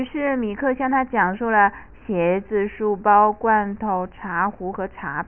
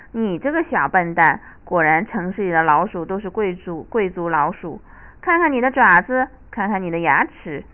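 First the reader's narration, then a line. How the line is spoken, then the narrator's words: Laughing. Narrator (Chinese): 田鼠笑道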